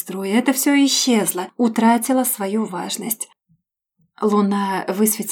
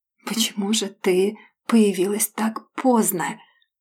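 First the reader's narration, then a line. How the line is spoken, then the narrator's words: Murmuring between kisses. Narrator (Russian): Бормочет он в перерывах между поцелуями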